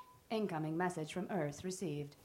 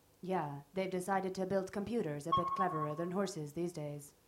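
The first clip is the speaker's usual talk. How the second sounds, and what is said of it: Sarcastic computer voice. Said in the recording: “Sarcasm mode initiated. ... Sarcasm mode ended. ... I can never tell if you're being sarcastic”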